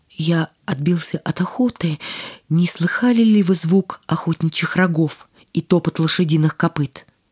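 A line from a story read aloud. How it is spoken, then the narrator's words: Trembling, moved voice. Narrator (Russian): Невинная кроткость и чистота поразили королевича, и он спросил дрогнувшим голосом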